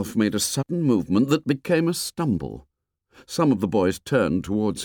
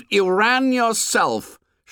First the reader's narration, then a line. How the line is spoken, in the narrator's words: shouted Jack